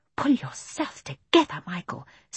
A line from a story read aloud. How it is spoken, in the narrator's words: said Jane in a whisper